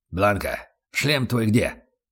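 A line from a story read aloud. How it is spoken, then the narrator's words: Sudden growl. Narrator (Russian): рыкнул вдруг Аслан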